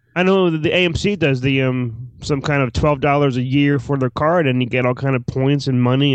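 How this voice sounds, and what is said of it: Usual voice. Nothing is said of it.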